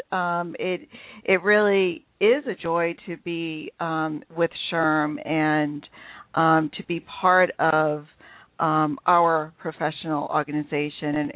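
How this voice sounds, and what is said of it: New England accent. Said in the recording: “if I do have a funny accent, it is my New England accent coming out”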